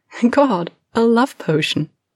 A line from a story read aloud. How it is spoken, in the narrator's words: Kara laughs, right against Lena's mouth